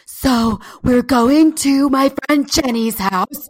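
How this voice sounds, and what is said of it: Imitates another person's voice. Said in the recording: “What is that voice? ... She could be also chain smoking for years. She's from New York.”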